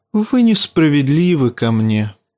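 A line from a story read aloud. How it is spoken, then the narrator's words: Sad. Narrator (Russian): печально сказал Варис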